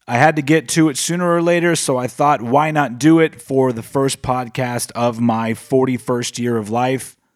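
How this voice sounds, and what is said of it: Slightly raspy voice. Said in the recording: “my voice sounds a little bit raspy, and that's because my allergies are kicking my ass”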